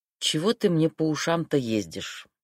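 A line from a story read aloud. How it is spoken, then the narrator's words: Sighing. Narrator (Russian): вздохнул он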